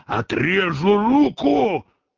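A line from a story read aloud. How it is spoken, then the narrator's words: Menacing shout. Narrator (Russian): Азазелла грозно закричал с седла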